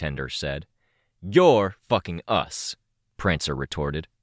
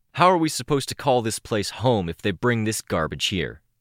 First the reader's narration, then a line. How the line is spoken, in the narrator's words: Prancer asked, almost snarling